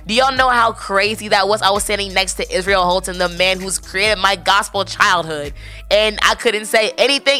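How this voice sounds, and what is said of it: Hoarse, worn-out voice. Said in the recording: “my voice was shot”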